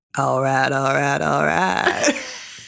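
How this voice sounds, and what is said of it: Slimy imitation of another person's voice. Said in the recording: “that's just McConaughey. It's so slimy. ... So slimy. ... Neither one of us can do it well.”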